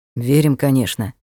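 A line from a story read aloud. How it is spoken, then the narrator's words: Gloomy knight. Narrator (Russian): мрачно кивнул рыцарь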